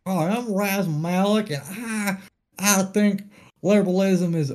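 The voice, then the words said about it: Texas-sounding accent. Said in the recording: “That's our only impersonation ... that's like me sounding like a Texas person now”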